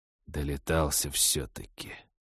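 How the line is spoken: Through gritted teeth. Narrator (Russian): сквозь зубы процедил мужчина

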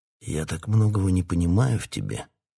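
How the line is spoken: Helpless mutter. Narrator (Russian): беспомощно пробормотал король

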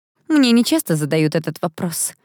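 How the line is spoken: Young woman's doubtful snort. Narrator (Russian): недоверчиво хмыкнула девица

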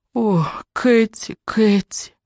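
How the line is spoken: Moaning. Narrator (Russian): застонал он

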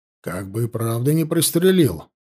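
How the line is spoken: Worried muttering. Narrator (Russian): пробормотал озабоченно Баранов

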